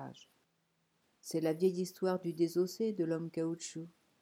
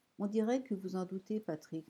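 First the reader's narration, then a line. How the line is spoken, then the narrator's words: Even tone. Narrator (French): nota-t-il d'un ton égal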